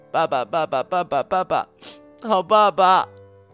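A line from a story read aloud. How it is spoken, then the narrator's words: Sobbing. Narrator (Chinese): 呜呜的哭出声来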